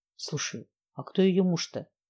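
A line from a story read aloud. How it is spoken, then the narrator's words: Whisper. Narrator (Russian): прошептал Илья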